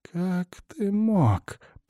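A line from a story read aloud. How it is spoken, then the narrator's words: Whisper. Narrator (Russian): прошептал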